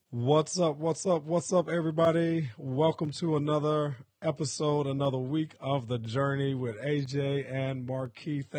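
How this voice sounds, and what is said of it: Hoarse voice. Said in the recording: “excuse my voice today. I'm a little hoarse”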